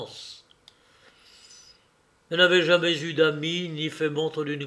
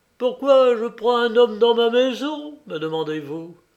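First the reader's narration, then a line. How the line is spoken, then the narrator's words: Old man exclaiming. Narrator (French): s'exclama le vieillard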